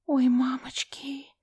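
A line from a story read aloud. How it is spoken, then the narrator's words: Whisper. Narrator (Russian): Прошептала я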